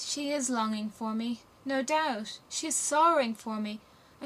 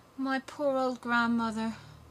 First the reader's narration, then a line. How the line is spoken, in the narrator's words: sighed Gerda